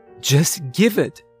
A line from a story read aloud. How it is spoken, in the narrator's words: exclaimed